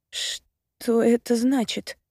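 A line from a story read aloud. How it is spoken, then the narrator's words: Hoarse question. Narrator (Russian): хрипло спрашиваю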